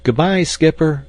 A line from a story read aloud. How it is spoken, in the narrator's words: shouted the boys